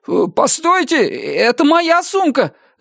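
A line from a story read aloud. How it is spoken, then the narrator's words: Alarmed shout. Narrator (Russian): закричал он, увидев, как худенькая нечесанная девушка лет 18 схватила его сумку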